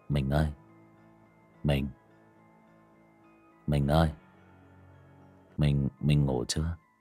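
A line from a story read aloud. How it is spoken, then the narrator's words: Old man's drowsy call. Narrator (Vietnamese): lão vô thức lên tiếng gọi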